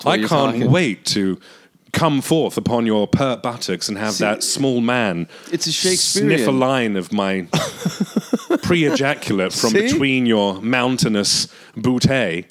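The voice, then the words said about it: British-accented speech. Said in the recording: “I just have a British accent.”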